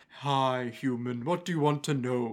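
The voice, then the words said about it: Fantasy tree creature character voice. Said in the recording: “That's your ent impression, is it?”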